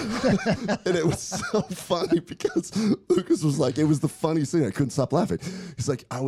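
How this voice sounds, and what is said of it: Usual voice. Nothing is said of it.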